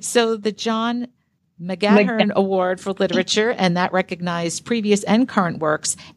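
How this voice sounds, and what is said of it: New York accent. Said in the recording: “New York accent. Listen, I apologize for it. You'll hear it more as we go on in the podcast.”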